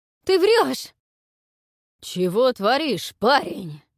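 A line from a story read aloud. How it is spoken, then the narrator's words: Growling. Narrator (Russian): зарычал Хёвдинг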